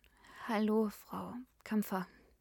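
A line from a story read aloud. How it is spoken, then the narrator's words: Hesitant. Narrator (German): begann Polly zögernd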